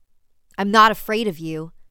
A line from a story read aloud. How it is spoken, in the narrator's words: he shouted at the children